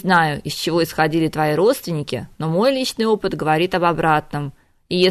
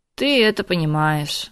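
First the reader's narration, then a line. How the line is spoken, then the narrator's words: Sad little girl. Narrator (Russian): грустно махнула рукой малышка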